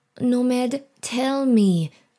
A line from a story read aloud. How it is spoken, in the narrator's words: she whines